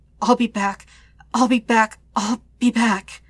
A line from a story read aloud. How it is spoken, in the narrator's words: he gasps out like a mantra